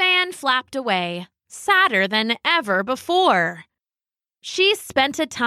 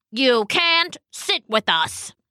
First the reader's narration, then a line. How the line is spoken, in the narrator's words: snapped